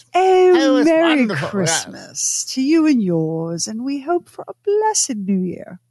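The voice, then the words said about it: Put-on Mid-Atlantic theater accent. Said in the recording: “they all talked like that ... That Mid-Atlantic theater accent?”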